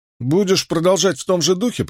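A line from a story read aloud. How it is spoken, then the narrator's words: Grumbling. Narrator (Russian): проворчал Мэтт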